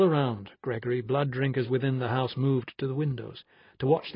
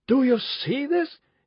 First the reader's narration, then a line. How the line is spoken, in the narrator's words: he shouted